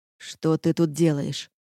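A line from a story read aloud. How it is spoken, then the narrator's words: Irritated question. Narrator (Russian): раздраженно спросил князь тьмы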